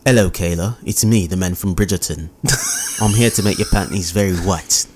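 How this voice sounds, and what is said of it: Awful put-on accent. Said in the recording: “First of all, that was awful. ... That was an awful accent.”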